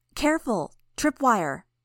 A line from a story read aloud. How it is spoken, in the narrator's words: She shouted